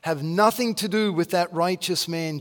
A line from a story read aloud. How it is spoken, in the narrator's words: she said